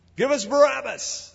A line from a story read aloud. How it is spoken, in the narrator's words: they cried